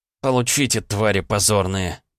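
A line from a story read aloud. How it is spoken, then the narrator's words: Angry mutter. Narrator (Russian): зло пробормотал я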